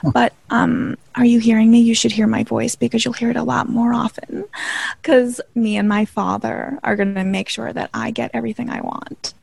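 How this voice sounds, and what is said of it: Breathy, airy voice. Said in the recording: “my voice is very breathy because I can't breathe that much. I don't have much air in my lungs right now.”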